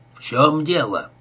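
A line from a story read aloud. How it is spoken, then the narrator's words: Rude question. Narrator (Russian): грубо спросил Бит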